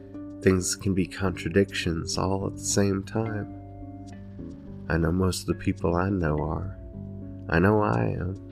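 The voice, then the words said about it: Noticeable accent. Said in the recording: “Sorry if my accent came out a lot in this. ... it's bringing my accent back.”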